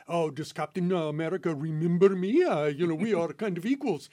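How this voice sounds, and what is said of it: Red Guardian impression with accent. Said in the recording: “Great accent work there.”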